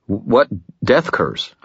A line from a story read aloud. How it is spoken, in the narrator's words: I stammered